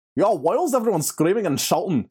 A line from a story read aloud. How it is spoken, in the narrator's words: Rory asked in his thick Irish accent